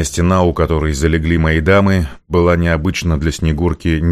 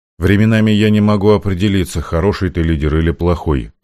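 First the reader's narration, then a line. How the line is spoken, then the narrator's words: Flat, even tone. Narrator (Russian): ровным тоном сообщила Снегурка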